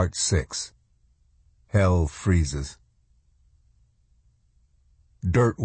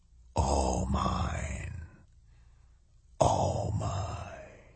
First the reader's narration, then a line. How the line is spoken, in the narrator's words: a dark voice whispering